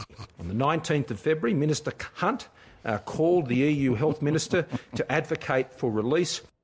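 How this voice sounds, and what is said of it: Australian accent. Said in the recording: “How much do you love that accent? ... The Aussie accent? ... The Aussies have a great accent.”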